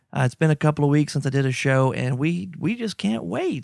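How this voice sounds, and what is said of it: Sick, rough-sounding voice. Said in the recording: “You can tell by my voice. I'm still under the weather... I am not sounding great”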